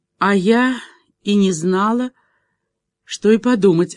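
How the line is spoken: Answer with deep sigh. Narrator (Russian): ответила и глубоко вздохнула

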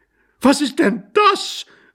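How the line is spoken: Horrified wife's cry. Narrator (German): rief entsetzt seine Gattin

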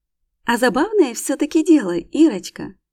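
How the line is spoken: Amused snort. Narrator (Russian): Весело хмыкает

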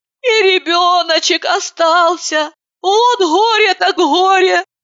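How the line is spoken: Tearful conclusion. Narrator (Russian): Слезливо заключила Катерина

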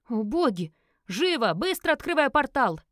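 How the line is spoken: Frantic yell. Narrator (Russian): заорал

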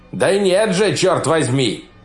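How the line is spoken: Shouting. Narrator (Russian): прокричал кто-то

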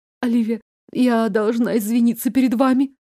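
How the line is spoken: Halting, sobbing babble. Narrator (Russian): Сбивчиво залепетала Шерон, перемежая слова горькими всхлипываниями

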